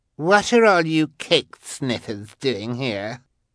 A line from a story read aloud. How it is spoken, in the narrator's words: demanded Carmelita, in an obnoxious voice the two siblings found equally familiar